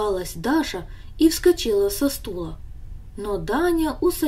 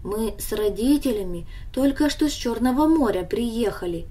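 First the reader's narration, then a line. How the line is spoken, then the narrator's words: Calm explanation. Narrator (Russian): объяснил он ей спокойно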